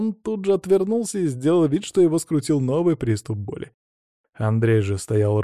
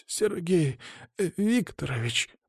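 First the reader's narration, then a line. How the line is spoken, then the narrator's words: Hoarse, self-pitying croak. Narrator (Russian): прохрипел он с видом страдающего шалопайчика перед контрольной по ОМБ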